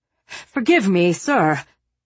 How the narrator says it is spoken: Larpent panted as he hurried along

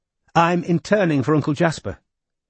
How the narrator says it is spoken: said Robin, smiling brightly

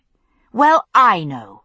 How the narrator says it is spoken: I said firmly

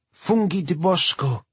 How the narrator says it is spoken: she exclaimed

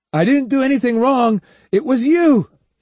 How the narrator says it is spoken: he shouted

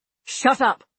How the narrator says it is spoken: Abby snapped viciously

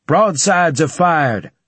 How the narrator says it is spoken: I shouted

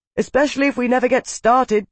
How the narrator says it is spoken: Tavi shouted

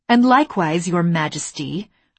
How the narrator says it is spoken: I snapped back

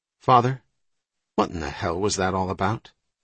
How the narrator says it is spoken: Riley chuckled

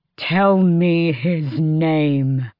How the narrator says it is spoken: Dorian snarled

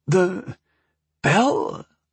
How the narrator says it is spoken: he asked unsteadily

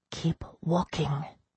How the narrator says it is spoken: I whispered to Yvette

